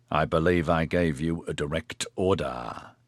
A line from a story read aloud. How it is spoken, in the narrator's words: Che said in a menacingly level tone